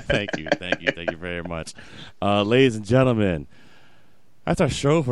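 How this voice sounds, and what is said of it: Usual voice. Nothing is said of it.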